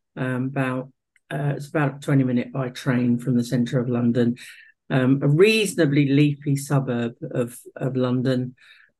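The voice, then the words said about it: South London accent. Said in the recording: “You've got the accent... South London accent.”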